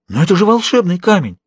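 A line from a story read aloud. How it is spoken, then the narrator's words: Exclamation. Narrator (Russian): воскликнула Жанна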